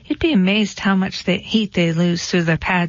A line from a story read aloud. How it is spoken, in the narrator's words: she said